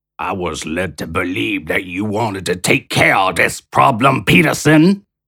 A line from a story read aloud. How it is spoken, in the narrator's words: Shea growled